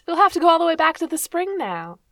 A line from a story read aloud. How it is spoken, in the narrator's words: Navia laughed at him